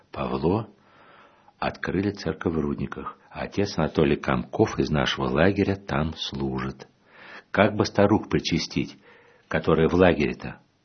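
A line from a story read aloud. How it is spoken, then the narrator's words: Quiet whisper in ear. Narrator (Russian): тоже тихо так на ухо говорит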